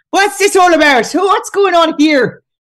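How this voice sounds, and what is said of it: Put-on Irish accent. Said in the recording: “That's my Irish accent.”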